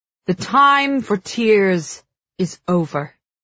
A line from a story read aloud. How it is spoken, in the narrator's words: Tiberius thunders, fists clenching at his sides